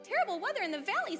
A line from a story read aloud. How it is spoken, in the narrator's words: squeaked the smallest